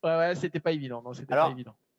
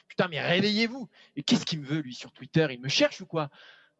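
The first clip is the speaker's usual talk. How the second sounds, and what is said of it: Jean-Pierre Bacri impression. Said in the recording (French): “C'est quoi cet accent? ... j'ai essayé d'imiter Jean-Pierre Bacri”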